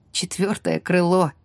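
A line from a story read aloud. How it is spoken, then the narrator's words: Snort. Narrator (Russian): фыркнула я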